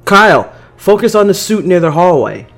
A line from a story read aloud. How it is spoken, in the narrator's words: I yelled